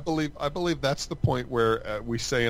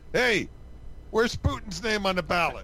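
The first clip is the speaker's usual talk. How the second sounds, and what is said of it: Loud shouted question. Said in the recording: “in a loud voice”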